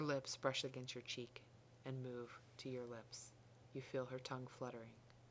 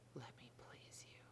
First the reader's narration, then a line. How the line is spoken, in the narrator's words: she whispers